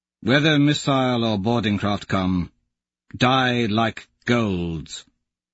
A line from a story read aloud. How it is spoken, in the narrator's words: Augustus says solemnly to us